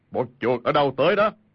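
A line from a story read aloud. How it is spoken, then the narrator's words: Big man's loud shout. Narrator (Vietnamese): có một người ..., thân thể cao lớn, đầu tọc bóng loáng, y quát lớn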